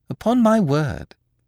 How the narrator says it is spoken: said Beautrelet gaily

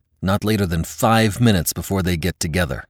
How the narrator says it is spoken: barked Lynn

